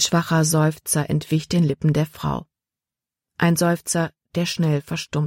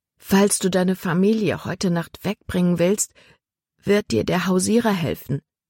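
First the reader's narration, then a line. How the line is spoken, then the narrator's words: Plain. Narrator (German): sagte Libby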